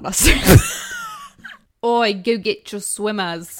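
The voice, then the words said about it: Put-on Australian accent. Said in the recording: “Can you say it in an Australian accent? ... Oh, that was really good. ... You sound very New Zealand right now.”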